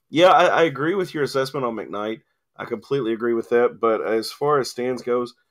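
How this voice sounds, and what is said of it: Strained, fading voice. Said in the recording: “My voice is going.”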